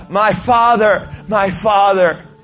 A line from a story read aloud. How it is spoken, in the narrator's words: Elisha cried out and said